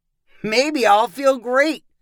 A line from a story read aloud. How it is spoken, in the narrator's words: called Russell with a laugh